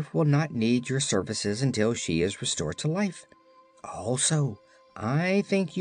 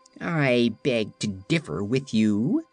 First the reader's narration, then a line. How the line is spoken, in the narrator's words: returned the cat in a haughty tone